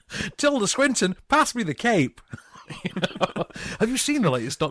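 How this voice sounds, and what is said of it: Imitates another person's voice. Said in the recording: “Great impression.”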